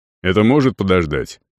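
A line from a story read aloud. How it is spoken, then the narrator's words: Curt question. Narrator (Russian): отрывисто спросил Арон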